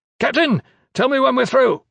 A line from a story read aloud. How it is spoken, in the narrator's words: Cruxa shouted over his shoulder